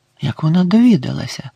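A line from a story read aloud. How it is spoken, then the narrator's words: Whispered. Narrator (Ukrainian): прошепотів він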